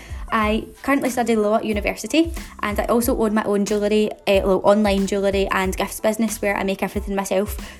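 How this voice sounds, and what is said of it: Glasgow Scottish accent. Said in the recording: “in case you haven't been able to tell from my accent, I'm from Glasgow”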